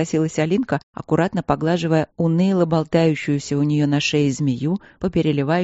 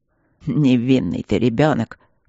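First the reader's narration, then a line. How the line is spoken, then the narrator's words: Snort. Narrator (Russian): фыркнул Ипполит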